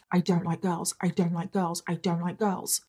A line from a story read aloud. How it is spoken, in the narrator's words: Alec … he would be whispering under his breath